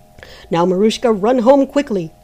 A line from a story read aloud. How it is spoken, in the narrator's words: shouted the month